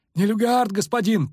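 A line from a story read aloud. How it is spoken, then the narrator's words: Shout. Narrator (Russian): крикнул кнехт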